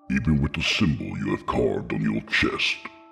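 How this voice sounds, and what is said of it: Deep, loud booming character voice. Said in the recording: “came a booming voice. It was loud but somehow comforting, like the voice of James Earl Jones or Michael Clark Duncan ... deep voice”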